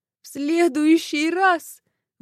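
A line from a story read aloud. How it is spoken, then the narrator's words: Howling. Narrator (Russian): взвыла Марфа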